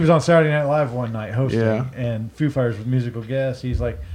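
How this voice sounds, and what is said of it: Usual voice. Nothing is said of it.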